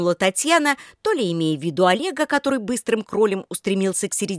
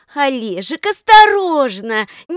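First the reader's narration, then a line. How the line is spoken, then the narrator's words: Admiring exclamation. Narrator (Russian): Не столько с беспокойством, сколько с восхищением воскликнула Даша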